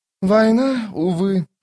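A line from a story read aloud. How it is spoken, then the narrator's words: Sighing. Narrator (Russian): вздохнул он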